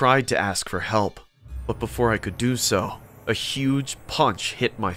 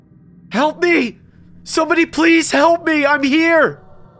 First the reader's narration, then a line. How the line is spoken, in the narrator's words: I screamed as loud as I could